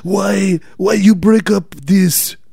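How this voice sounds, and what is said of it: Bad put-on Italian accent. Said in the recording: “That's my Italian accent ... you're the worst accents”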